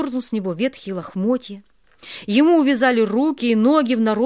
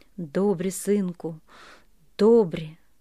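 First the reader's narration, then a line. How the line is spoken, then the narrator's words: Quiet. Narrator (Russian): сказал тихо Бульба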